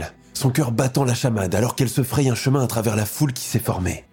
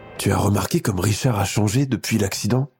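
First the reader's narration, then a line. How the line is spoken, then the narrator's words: Worried whisper, mother. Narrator (French): murmure sa mère à son père, l'inquiétude teintant ses mots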